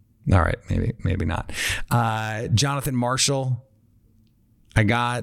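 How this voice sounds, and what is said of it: Usual voice. Nothing is said of it.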